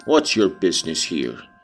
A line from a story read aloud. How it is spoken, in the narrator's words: he demanded grimly